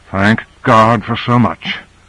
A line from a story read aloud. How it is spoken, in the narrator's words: muttered Carter